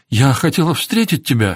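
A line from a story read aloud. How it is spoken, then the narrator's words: Babbling. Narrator (Russian): залепетала Кэтрин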